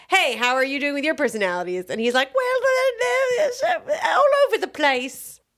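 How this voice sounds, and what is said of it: Put-on accent, well done. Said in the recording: “Good job. That was great accent.”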